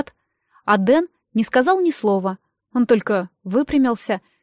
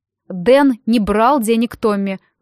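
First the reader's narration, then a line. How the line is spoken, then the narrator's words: Loud announcement. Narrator (Russian): громко объявил мистер Берр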